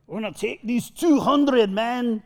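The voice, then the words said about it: Put-on Scottish accent. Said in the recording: “That's my Scottish accent.”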